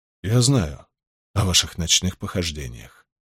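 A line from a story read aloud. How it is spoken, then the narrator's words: Quiet. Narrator (Russian): тихо произнес Мэтью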